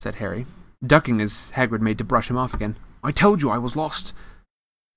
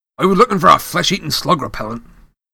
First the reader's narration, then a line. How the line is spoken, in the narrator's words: growled Hagrid